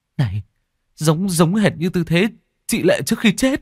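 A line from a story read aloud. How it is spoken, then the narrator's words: Exclaiming. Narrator (Vietnamese): Tôi thốt lên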